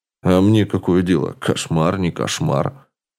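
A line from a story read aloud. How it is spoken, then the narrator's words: Displeased elderly grumble. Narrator (Russian): С недовольным видом проворчал пожилой мужчина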